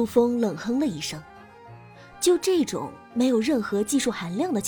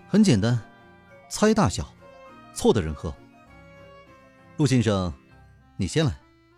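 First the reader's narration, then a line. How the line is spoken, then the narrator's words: Flat, indifferent. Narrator (Chinese): 刘雨安淡淡的说道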